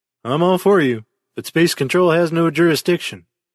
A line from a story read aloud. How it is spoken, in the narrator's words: he said